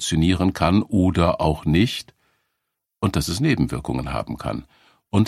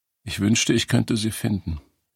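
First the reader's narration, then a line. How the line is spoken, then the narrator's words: Choked, very quiet voice. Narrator (German): sagt Serena mit einer Stimme, die so erstickt und leise ist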